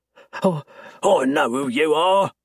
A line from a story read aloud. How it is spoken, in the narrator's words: the man snarls